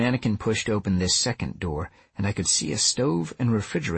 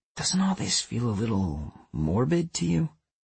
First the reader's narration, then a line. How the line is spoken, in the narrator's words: I asked softly